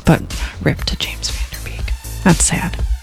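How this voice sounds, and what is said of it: Whispering. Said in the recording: “you're whispering.”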